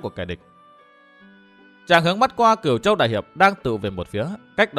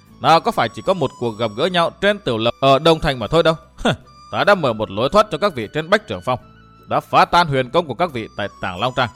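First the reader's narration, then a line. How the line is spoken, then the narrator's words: Loud laughter. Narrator (Vietnamese): Độc Cô Thanh Tùng cười lớn nói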